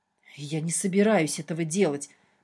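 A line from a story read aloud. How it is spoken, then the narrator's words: Confused hissing. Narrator (Russian): прошипел ничего не понимающий Шартрес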